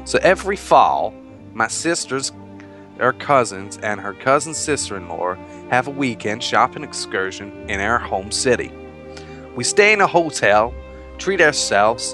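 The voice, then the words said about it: Put-on American accent. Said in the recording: “Oh, I can't do the American accent anymore, it's driving me mad.”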